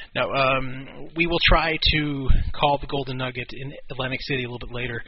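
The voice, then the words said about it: Congested, weak fading voice. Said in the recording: “my voice is fading a little bit ... I'm doing this show a little bit under the weather. I have caught a cold ... a little bit congested”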